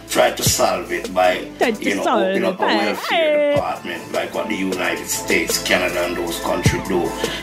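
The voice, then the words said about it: Seductive Caribbean accent. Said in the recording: “Very seductive accent ... Jamaican only or Trinidadian? ... Specifically, I like that accent.”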